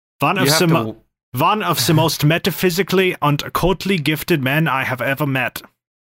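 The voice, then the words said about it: Put-on German accent. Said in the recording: “German accent? ... What is a German occultist man sound like?”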